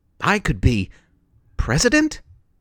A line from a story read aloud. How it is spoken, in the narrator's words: Janet exclaimed